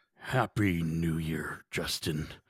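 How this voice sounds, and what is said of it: Gruff villain character voice. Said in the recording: “my Kingpin interview or impression ... I thought you were like old man Christmas.”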